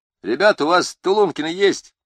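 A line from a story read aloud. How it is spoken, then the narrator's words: Loud question. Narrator (Russian): громко спросил Первоглинских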